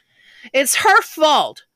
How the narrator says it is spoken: I blurted

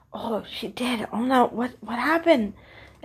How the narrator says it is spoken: whispered among themselves

